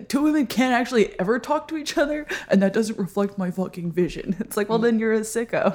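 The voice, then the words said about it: Mock impression of male artist. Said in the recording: “that was my impression of a male artist”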